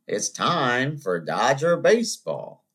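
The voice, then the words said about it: Imitates another person's voice. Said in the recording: “That's my Vince Scully impersonation.”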